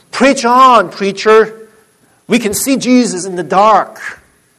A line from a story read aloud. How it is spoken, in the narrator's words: one of the elderly deacons sitting in the back of the church just cried out